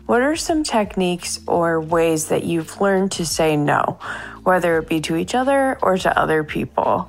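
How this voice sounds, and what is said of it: Speaks with a noticeable accent. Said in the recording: “Love her accent”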